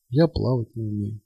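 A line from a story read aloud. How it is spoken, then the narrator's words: Quiet, helpless. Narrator (Russian): тихо и беспомощно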